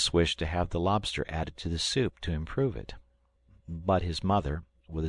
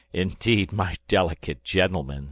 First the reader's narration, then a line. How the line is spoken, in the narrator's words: said I, laughing